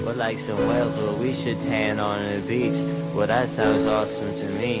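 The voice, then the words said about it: Affected, deliberately nasal rap voice. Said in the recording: “putting on that affected voice ... that's his rap voice ... It's a bad choice ... He's being all nasally on purpose?”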